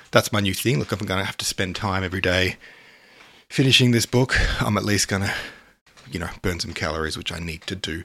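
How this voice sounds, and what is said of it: Slightly out of breath. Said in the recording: “I'm on a treadmill at the moment ... I'm a little bit out of breath.”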